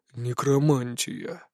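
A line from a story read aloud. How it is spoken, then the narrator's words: Reluctant grumble, heavy sigh. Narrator (Russian): неохотно пробурчал гном и тяжело вздохнул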